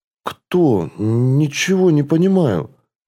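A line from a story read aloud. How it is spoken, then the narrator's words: Strained, forced out. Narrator (Russian): выдавил из себя Дарсет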